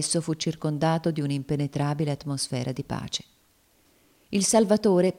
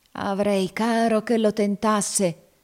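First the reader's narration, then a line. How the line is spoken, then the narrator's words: Savage growl. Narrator (Italian): esclamò Legré con un ringhio selvaggio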